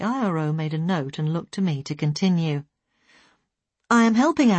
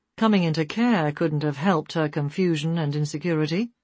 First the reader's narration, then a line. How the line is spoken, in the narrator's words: the IRO observed dryly